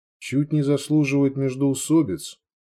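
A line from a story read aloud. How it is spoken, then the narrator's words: Quiet young woman. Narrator (Russian): тихо ответила девушка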